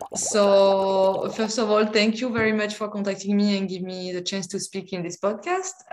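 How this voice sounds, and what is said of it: Strong French accent. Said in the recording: “my strong French accent ... I can't get rid of it.”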